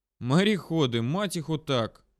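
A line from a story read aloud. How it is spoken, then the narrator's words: Sighing in Russian. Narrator (Russian): вздохнул, сказав это все на русском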